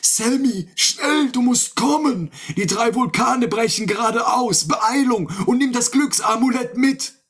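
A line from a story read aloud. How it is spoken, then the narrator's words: Calling out. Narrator (German): rief er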